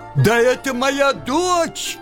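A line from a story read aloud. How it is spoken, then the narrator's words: Shouted. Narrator (Russian): крикнул царь Горох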